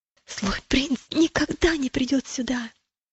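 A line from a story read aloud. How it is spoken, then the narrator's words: Whisper. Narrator (Russian): прошептал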